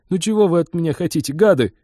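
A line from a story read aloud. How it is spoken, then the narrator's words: Whining. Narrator (Russian): заскулил он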